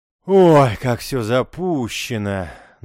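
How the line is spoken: Theatrical sigh. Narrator (Russian): наигранно вздохнул Вахтенков

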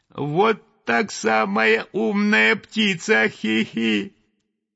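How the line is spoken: Thin little voice. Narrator (Russian): тоненький голосок сказал

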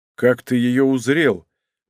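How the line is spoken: Gloomy question. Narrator (Russian): мрачно спросил опер

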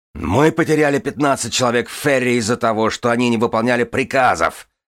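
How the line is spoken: Bark. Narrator (Russian): рявкнула бармен

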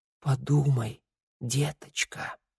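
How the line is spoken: Mother whispering. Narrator (Russian): прошептала мать

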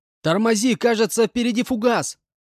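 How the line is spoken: Shouting into microphone. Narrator (Russian): закричал я в микрофон

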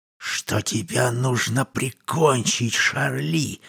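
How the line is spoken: Male whisper. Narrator (Russian): прошептал он

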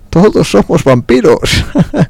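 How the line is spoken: Laughing. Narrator (Spanish): rió el señor Fletches

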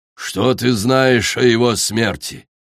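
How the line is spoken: Cold, through clenched teeth. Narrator (Russian): холодно процедил акула

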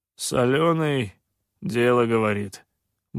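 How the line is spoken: Gloomy grumble, sniffling. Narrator (Russian): мрачно проворчал сутулый Ксилай с порванным ухом и шмыгнул носом

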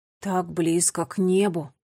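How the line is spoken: Awed murmur. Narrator (Russian): пробормотал Нелио с благоговением

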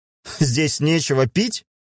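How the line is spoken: Laughing. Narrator (Russian): засмеялся Мюррей

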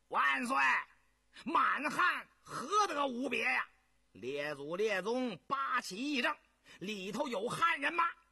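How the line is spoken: Loud shout. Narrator (Chinese): 永信就在座中大声叫道

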